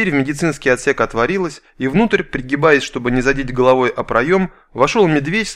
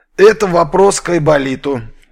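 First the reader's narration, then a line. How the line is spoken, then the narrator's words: Cheerful chuckle, big man. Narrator (Russian): весело усмехнулся здоровяк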